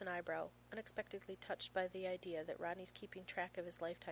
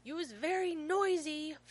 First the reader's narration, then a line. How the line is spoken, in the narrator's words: Finn yells from his bedroom